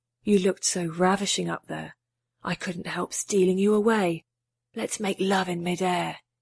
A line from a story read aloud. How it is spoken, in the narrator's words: whispered into her ear